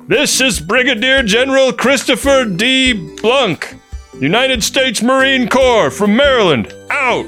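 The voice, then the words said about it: Shouting voice. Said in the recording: “In a shouting voice,”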